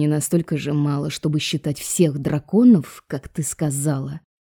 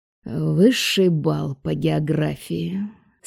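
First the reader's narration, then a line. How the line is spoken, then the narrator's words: Drawling, mock admiration. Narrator (Russian): с фальшивым восхищением протянул профессор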